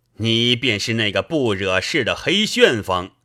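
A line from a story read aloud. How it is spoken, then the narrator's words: Laughing. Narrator (Chinese): 宋江笑道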